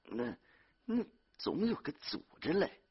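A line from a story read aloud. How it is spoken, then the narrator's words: Muttering. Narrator (Chinese): 孙玉婷在窑里嘟囔着说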